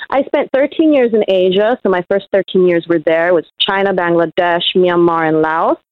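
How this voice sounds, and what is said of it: Thick New York accent. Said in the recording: “my thick New York accent ... yes, yeah, I could hear it”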